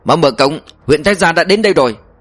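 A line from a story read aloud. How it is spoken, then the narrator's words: Shouting. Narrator (Vietnamese): Y quát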